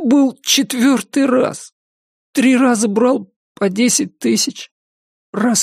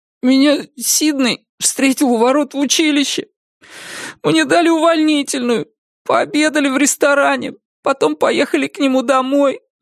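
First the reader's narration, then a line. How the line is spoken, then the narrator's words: Sobbing account. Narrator (Russian): всхлипывая, отчитывался Андрей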